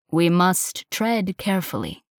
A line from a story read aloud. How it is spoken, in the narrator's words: said